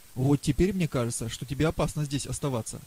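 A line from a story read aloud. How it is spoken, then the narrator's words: Plain. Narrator (Russian): сказала Тоня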